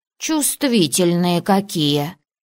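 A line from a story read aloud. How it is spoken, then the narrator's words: Small dragon's snort. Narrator (Russian): фыркнул дракончик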